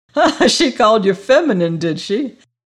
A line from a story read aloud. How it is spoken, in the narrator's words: cried the doctor, dancing and laughing